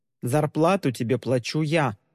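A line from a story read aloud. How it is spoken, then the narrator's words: Stern. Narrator (Russian): строго напомнил ему Тристин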